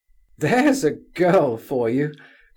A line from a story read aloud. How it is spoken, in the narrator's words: cried Nastasia Philipovna